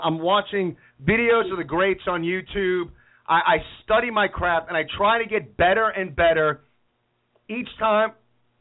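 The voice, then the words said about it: Choked up, emotional voice. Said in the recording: “I'm, I'm getting a little choked up”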